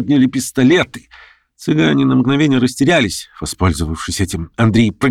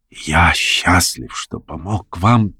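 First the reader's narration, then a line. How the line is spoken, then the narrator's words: Barely audible whisper. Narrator (Russian): еле слышно прошептал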